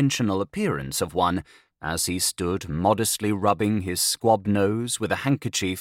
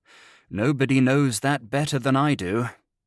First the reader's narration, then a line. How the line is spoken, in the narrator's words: sighed the other